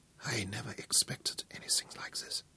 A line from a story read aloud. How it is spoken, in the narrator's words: Von Schiller whispered